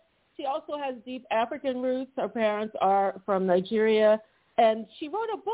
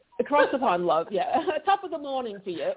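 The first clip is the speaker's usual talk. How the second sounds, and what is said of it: Put-on British accent, fairly good. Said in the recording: “That was actually pretty good. That was pretty good. ... That was a good accent.”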